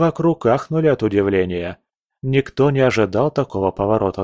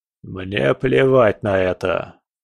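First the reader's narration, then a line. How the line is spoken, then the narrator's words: Cold. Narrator (Russian): холодно ответил граф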